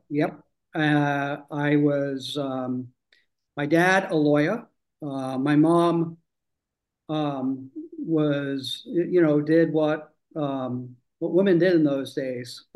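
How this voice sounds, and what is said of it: British accent. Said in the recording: “That's where the accent comes from... grew up in the UK”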